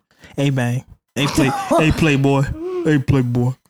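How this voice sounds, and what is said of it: Imitates another person's voice. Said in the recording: “Do I have a baby accent? ... I don't have a baby impression.”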